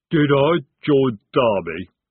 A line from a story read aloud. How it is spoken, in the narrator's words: he rumbled